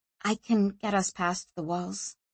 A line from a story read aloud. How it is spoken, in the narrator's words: she said quietly